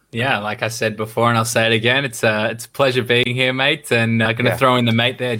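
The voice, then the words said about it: Slight Australian accent. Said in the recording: “there's a bit of an Australian twang there, there's the mate”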